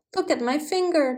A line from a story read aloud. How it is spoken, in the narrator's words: the princess cried